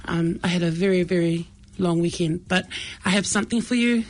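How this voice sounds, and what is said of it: Rough, strained voice. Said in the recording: “my voice is quite cranky from the weekend”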